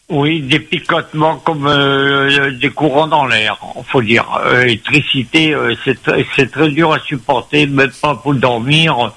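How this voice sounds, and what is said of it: Creole-accented French speech. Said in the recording (French): “excusez-moi mon accent ... je parle créole français”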